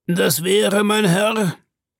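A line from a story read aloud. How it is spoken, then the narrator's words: Shouted. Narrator (German): rief Ned Land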